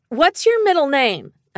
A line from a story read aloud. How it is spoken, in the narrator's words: I yelled back